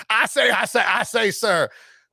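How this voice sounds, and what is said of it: Southern cartoon rooster voice. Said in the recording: “In a Southern accent. ... what's the rooster from Looney Tunes? A Foghorn Leghorn. In a Foghorn Leghorn accent”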